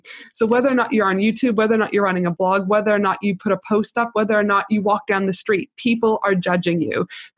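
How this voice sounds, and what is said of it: Canadian accent, fast speech. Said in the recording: “my Canadian accent ... how quickly I talk”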